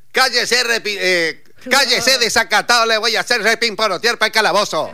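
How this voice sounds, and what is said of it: Cartoon character voice, Corrientes accent. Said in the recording (Spanish): “Porque era correntino. Te salió bien la tonada, muy bien. ... ¡Ah, igual! Sale igual.”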